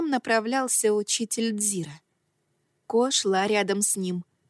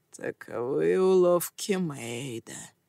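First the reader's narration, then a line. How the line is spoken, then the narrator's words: Hoarse voice. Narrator (Russian): произнес хриплый голос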